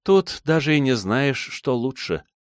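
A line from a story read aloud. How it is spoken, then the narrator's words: Sighing woman. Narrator (Russian): вздохнула она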